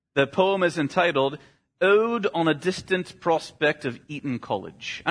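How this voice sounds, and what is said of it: Attempted British accent. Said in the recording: “I'm not sure if that's even a correct British accent.”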